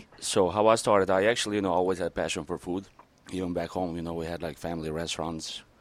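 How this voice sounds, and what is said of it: Foreign accent. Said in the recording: “We are having, like, great accents today. It's like great accent morning”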